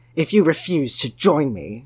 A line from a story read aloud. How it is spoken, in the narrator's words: Jude Law growled